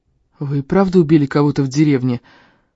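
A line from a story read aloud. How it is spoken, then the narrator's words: Hoarse rasp. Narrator (Russian): просипел я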